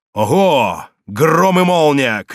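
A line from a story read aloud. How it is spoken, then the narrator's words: Shout. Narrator (Russian): крикнул он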